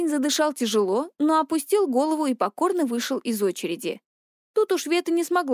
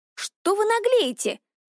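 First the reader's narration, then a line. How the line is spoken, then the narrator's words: High-pitched shout. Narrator (Russian): тонким голоском закричала она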